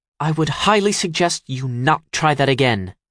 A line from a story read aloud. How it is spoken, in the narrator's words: she snaps